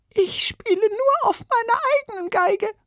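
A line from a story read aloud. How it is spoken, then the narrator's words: Squeaky female violinist. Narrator (German): piepste eine Violinistin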